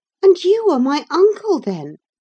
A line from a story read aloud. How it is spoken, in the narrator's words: cried